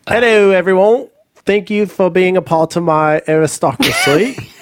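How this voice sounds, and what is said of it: Put-on English or Australian accent. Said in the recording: “Oh, should I do English? ... Kind of Australian.”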